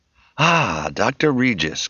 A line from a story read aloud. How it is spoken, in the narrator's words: Kelly exclaimed, catching sight of the surprised and none too pleased Kim